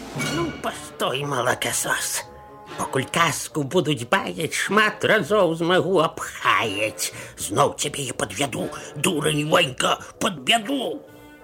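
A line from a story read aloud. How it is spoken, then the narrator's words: Muttering under breath. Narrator (Belarusian): мармытнуў сабе пад нос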